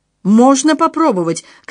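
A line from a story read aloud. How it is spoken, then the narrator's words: Shouted. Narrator (Russian): крикнул Отто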